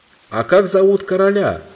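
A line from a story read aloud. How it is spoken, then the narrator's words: Shout after someone. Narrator (Russian): крикнул ей во след Юстас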